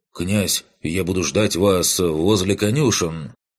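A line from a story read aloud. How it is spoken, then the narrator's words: Deep voice from behind. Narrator (Russian): Пробасил за моей спиной Кирал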